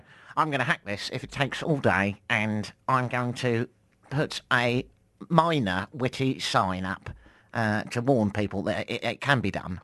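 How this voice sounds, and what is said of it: Exaggerated nerd character voice. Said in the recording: “That's my nerd voice.”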